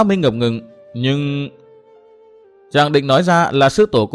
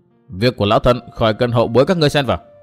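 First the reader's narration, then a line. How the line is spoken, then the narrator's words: Stern old woman. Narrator (Vietnamese): Lão bà nghiêm giọng nói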